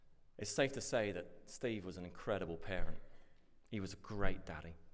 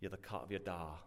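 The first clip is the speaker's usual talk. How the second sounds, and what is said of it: Poor attempt at Belfast accent. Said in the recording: “a quote from the Shankill ... I knew the accent wouldn't work. ... I did my best”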